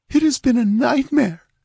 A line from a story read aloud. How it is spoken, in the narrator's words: she whimpered